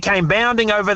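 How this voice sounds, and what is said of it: Imitates another person's voice, dog-like. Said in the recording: “You sound like your dog, McGruff.”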